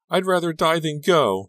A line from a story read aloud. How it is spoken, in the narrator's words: she yelled at her father